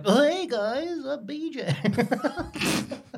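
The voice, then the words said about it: Impression of BJ from Barney. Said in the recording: “that magnificent impression of him”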